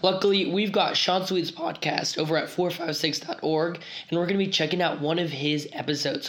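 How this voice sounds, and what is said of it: Hoarse, partly lost voice. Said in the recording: “I've kind of lost my voice”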